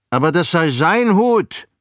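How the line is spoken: Bald man's shout. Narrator (German): rief der Glatzkopf

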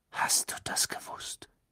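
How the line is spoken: Whispered. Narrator (German): wisperte er

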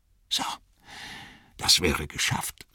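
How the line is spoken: Soft. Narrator (German): sagte er leise

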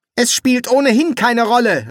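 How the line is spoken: Called out. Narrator (German): rief er

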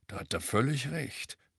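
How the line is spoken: Grunt. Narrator (German): grunzte

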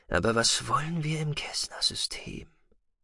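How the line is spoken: Muttering to himself. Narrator (German): murmelte mehr an sich selbst gerichtet

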